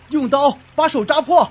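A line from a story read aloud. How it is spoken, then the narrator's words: Shouting. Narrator (Chinese): 对我喊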